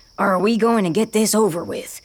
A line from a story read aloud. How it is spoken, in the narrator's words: Ravia growls